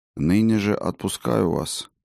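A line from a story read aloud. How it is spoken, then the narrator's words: Quiet speech. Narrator (Russian): негромко проговорил Фиделис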